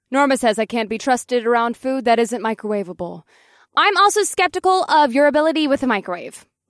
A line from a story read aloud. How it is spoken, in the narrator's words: Norma called out from behind the refrigerator door